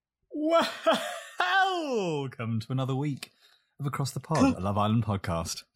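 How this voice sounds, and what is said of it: Cheesy radio DJ voice. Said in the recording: “that just gave me the ick ... I'm not ever going to not do a cheesy radio DJ introduction”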